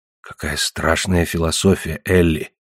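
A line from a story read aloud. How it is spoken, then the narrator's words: Whisper. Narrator (Russian): снова прошептал Лусин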